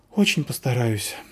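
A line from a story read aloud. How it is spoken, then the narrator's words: Sighing. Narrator (Russian): вздохнула Заверушка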